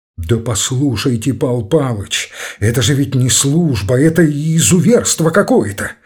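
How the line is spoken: Tearful angry exclamation. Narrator (Russian): Со слезами гнева и обиды в голосе воскликнул Ромашов

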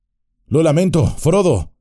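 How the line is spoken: Worried exclamation. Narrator (Spanish): exclamó muy preocupado

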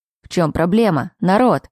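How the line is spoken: Loud. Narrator (Russian): Лерой лишь громко произнес

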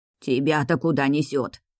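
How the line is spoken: Angry old woman. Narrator (Russian): зло бросила бабка-соседка

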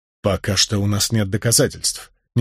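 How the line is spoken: Quiet. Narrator (Russian): негромко произнес

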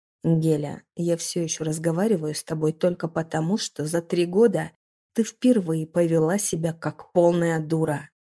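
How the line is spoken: Growl, casual tone. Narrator (Russian): прорычал Дамир с лицом, будто он ведет непринужденную светскую беседу

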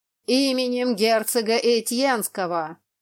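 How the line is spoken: Shout. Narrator (Russian): опять закричал один из всадников

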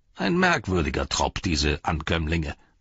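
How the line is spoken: Plain. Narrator (German): sagte Gimli

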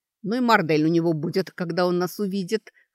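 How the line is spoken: Laughing loudly. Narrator (Russian): хохотала Сашка

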